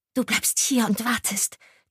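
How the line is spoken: Hissed. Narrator (German): zischte sie Ilse zu

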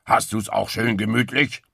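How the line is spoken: Calling upward. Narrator (German): rief Wildschwein nach oben

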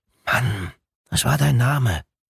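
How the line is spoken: Whisper. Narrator (German): flüsterte

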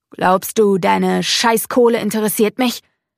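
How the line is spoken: Growling. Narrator (German): knurrt

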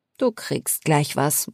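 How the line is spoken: Tired, smiling murmur. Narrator (German): murmelte ich müde lächelnd

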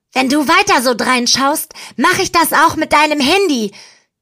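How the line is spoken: Shriek. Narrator (German): kreische ich

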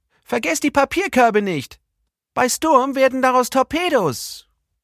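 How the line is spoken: Calling after. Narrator (German): rief ihnen Jenny Blom nach

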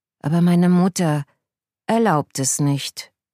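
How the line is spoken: Sighing. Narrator (German): seufzt Koko

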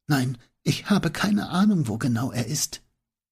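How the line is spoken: Wavering voice, whispering. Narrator (German): Ihre Stimme schwankte und sie flüsterte nur noch

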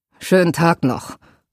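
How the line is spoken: Murmur. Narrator (German): murmelte er

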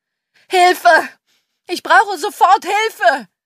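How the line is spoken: Man screaming. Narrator (German): schrie er

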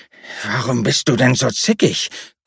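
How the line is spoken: Growling. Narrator (German): knurrte

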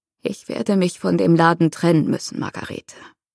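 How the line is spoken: Croaking. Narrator (German): krächzte er

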